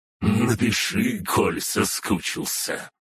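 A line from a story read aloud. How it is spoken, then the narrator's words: Chuckling. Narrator (Russian): хохотнула Фая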